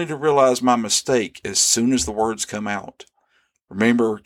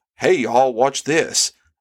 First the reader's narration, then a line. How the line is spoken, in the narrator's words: exclaimed in the spirit of overconfidence